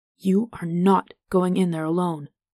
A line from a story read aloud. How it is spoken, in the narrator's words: Vivin growled